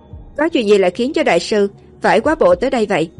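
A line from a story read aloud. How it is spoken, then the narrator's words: Neutral measured tone. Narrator (Vietnamese): Mấy cô nói với giọng không kiêu căng, cũng không nịnh nọt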